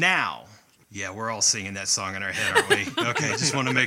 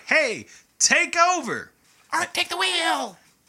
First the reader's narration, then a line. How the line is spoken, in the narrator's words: Zugray yells at Ark